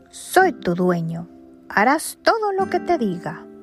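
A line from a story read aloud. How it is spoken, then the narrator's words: Exclaiming. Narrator (Spanish): Exclamó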